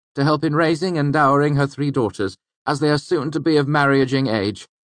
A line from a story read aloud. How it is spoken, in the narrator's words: Bast said loudly across the room